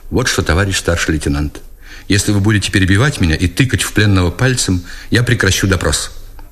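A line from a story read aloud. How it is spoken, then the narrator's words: Cold interruption. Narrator (Russian): Но Книжко оборвал его холодно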